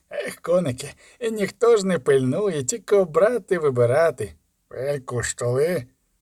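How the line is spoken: Fawning hiss through teeth. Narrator (Ukrainian): Просичав щупак із підлабузницьки вишкіреними щербатими зубами

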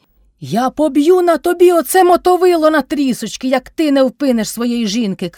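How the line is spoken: Shout. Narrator (Ukrainian): крикнув Кайдаш

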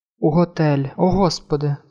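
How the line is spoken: Groaned. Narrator (Ukrainian): простогнала жінка

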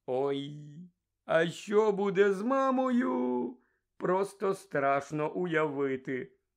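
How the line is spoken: Groaned. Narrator (Ukrainian): простогнав Джордж

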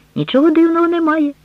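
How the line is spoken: Exclaimed. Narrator (Ukrainian): вигукнув Октав

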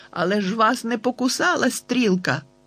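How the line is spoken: Exclaimed. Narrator (Ukrainian): вигукнув я

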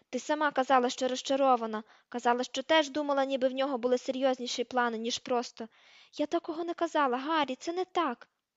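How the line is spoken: Shouted. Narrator (Ukrainian): крикнула

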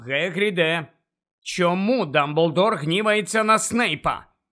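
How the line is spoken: Loud insistent questioning. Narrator (Ukrainian): голосно допитувався Гаррі

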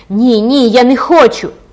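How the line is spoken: Trembling, loud, shrill cry. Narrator (Ukrainian): дівчина затремтіла і крикнула гучним пронизливим голосом

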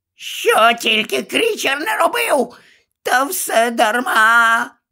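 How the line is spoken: Anguished groan, elf. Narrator (Ukrainian): Ельф аж застогнав

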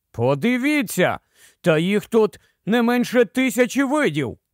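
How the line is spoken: Exclaimed. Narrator (Ukrainian): вигукнув Девідсон

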